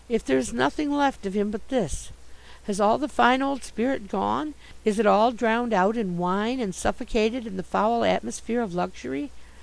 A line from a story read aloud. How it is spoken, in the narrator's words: I murmured